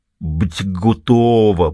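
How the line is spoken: Drawn-out speech. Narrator (Russian): протянул

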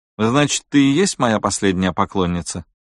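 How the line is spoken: Plain. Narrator (Russian): спросила Мария Кьяра

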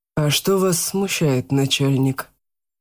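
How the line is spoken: Calm question. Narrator (Russian): спокойно поинтересовался Марк

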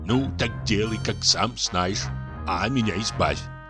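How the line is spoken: Muttering. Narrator (Russian): пробормотал Чубиков

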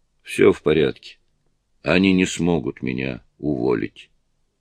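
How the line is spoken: Grim. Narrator (Russian): Гарри мрачно произнес

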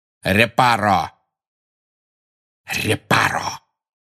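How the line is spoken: Hissed. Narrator (Russian): прошипел Снег

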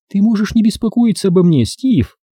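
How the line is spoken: Ringing childlike voice. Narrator (Russian): сказала ему Юджиния по-детски звонким голосом

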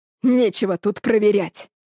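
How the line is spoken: Growl. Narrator (Russian): рыкнул Сережа

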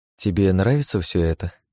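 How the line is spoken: Sad smiling question. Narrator (Russian): грустно улыбнувшись, спросила Лия

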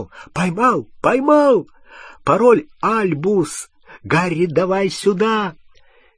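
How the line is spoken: Excited shouting. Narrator (Russian): Рон взволнованно закричал

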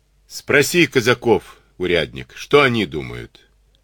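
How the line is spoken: Laughing. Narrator (Russian): засмеялся

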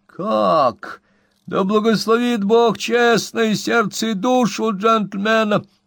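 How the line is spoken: Feigned astonished exclamation. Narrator (Russian): воскликнул Зефир, притворяясь крайне изумленным

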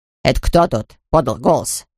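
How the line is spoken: Angry grumble. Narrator (Russian): сердито пробурчал Максимилиан

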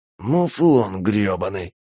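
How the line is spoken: Hissing nobleman. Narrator (Russian): прошипел маркиз

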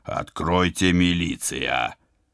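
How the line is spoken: Growl. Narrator (Russian): Я зарычал

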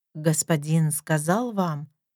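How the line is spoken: Quiet question. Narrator (Russian): тихо спрашивает она

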